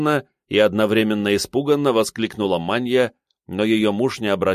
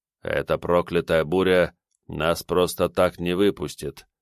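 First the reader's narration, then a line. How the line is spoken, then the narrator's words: Muttering. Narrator (Russian): пробормотал Арашин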